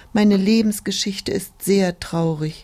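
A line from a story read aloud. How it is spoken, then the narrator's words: Sighing tulip. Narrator (German): die Tulpe seufzte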